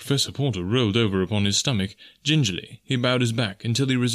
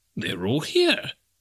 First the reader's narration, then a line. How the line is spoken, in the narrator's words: he exclaimed